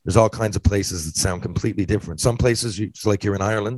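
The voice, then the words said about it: Mild Newfoundland accent. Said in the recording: “We would say in Newfoundland ... I'm sure you guys can tell I have an accent, but trust me, it's not as thick as a lot of other places”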